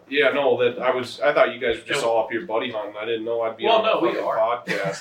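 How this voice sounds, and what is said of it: Speaks with a noticeable accent. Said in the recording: “I like your accent.”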